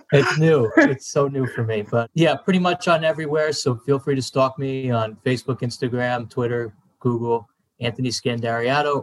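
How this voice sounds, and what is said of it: New Jersey accent. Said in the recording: “He's got the Jersey accent”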